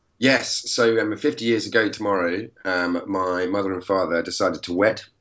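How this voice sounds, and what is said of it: Hoarse, congested voice. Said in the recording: “I've got a sore throat, a bit of sinusitis”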